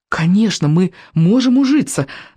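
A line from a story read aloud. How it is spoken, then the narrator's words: Fervent exclamation. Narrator (Russian): с жаром воскликнул Икинг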